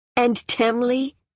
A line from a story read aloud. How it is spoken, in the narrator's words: Akhal said, laughing but disturbed